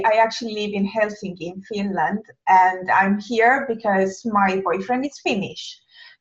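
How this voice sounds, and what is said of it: Italian accent in English. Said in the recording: “as you probably may guess from my accent, I'm not native English speaker, and in fact, I'm Italian”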